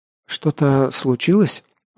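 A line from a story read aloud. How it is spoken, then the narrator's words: Timid question. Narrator (Russian): Робко спросил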